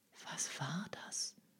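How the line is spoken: Girl whispering. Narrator (German): flüsterte das Mädchen

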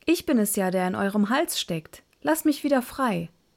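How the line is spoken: Calling out. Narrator (German): rief Schneiderlein

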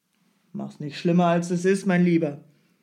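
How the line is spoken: Called out. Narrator (German): rief Strogoff

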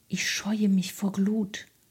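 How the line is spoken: Horse whispering. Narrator (German): flüsterte das Pferd

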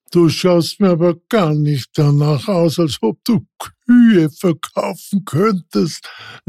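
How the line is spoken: Little man laughing. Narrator (German): lachte das Männlein

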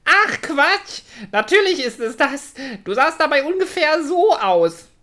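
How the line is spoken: Laughing. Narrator (German): Er lachte weiter und sagte

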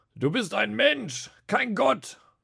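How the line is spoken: Roared. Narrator (German): brüllte nun auch Kaiaphas

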